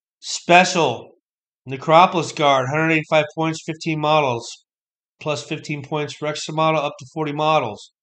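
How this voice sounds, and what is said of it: Strained, hoarse voice. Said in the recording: “I'm losing my voice. My throat hurts now.”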